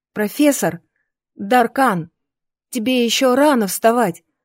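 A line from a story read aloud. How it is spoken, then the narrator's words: Exclaimed. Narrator (Russian): воскликнула я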